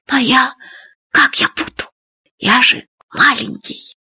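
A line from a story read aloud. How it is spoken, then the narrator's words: Whisper. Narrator (Russian): шепотом сказал Фадейка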